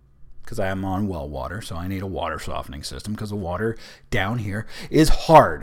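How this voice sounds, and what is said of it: Hoarse voice. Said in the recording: “my voice is getting hoarse”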